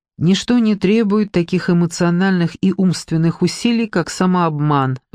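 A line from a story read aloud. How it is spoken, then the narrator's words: Sigh. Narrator (Russian): вздохнула она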